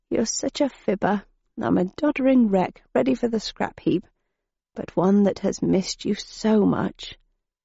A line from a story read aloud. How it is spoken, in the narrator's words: she murmured